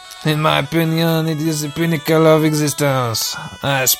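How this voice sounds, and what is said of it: Usual voice. Nothing is said of it.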